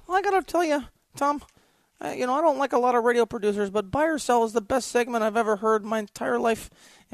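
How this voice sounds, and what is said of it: Imitates another person's voice. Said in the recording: “do a Mark Mangino voice again, or just my own voice”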